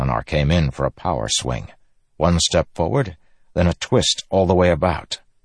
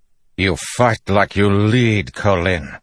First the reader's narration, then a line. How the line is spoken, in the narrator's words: he growled